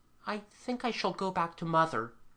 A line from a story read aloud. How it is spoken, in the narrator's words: he said timidly